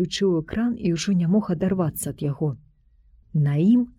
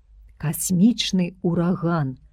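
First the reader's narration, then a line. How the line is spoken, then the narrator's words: Plain. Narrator (Belarusian): сказаў доктар Савіч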